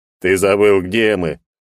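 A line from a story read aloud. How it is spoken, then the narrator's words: Snorting reply. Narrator (Russian): хмыкнул он в ответ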